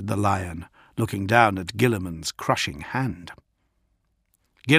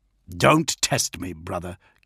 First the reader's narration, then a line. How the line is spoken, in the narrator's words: Gilliman snapped